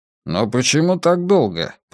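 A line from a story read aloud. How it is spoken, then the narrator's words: Grumbled. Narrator (Russian): проворчал Левин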